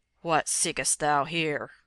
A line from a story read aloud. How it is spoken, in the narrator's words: asked the evil one in a deep, strong voice, like the roar of a distant thunder